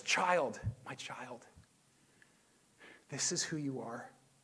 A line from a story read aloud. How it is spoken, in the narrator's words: whispering to us